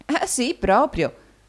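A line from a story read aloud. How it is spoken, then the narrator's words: Answered laughing. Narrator (Italian): rispose ridendo l'amica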